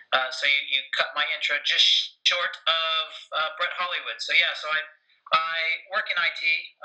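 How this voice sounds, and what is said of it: American accent. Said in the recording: “as you can tell from my accent, I grew up in America”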